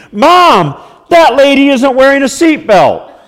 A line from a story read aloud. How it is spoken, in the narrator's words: my five-year-old shout from the back seat